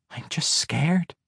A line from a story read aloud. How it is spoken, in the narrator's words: whispered in his ear